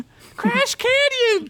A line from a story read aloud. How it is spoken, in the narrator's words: Tina shouted